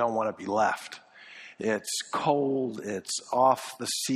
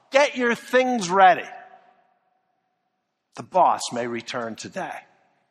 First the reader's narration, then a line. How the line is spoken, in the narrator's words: He shouted out